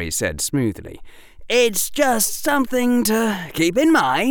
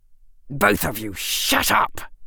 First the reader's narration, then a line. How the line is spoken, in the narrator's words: Draco said through gritted teeth